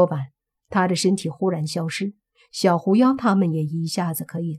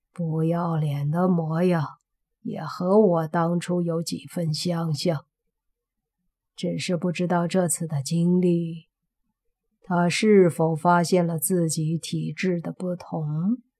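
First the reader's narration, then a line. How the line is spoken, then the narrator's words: Low, amused. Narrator (Chinese): 中年人……笑了，低声的说道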